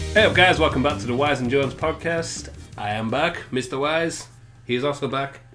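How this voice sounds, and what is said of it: Put-on foreign accent. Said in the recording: “a foreign accent”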